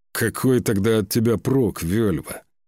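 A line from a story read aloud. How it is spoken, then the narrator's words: Growl. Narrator (Russian): рыкнул Скаль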